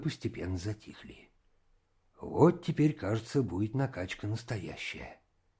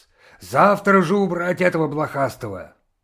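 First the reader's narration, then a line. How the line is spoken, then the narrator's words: Shouting. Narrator (Russian): закричал на нас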